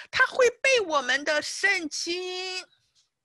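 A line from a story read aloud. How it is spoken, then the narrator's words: Man shouting. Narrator (Chinese): 这位男士就大叫起来，对他太太说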